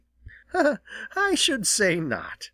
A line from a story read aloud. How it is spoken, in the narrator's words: laughed Jenny